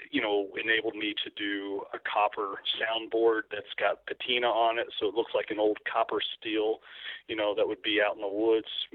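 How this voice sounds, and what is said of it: Kentucky accent. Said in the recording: “I just let my Kentucky accent come out there in the word steel.”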